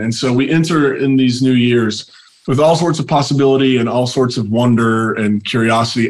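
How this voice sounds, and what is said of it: Slightly sick, funny-sounding voice. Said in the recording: “You can probably tell my voice is a little funny. I've been a little sick over the last week”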